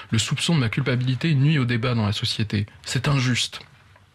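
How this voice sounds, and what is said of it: Imitates another person, Swiss accent. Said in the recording (French): “pourquoi ton Glucksmann a un accent suisse? ... c'est mon imitation de Glucksmann, mais on me dira sans doute sur TikTok, pas très bien imité.”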